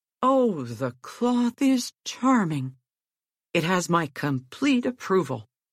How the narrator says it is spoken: aloud he exclaimed

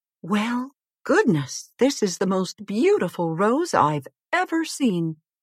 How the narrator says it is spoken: exclaimed the queen

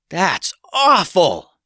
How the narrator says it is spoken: yelled Ted

